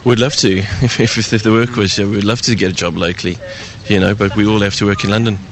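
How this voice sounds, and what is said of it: South African accent. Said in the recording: “that accent ... I'm originally born in South Africa”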